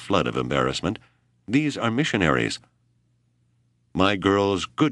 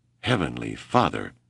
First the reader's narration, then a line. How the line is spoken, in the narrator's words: Abner whispered to Brother Whipple